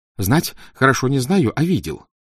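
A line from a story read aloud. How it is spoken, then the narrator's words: Hurried. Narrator (Russian): торопливо сказал он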